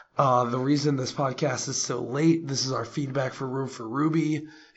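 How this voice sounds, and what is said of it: Hoarse, strained voice. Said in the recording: “I actually am losing my voice.”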